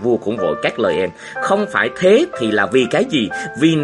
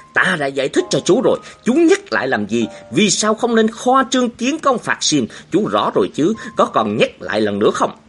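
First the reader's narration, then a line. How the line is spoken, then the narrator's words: Angry, loud king. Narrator (Vietnamese): Vua Thái Đức tức giận, nổi lớn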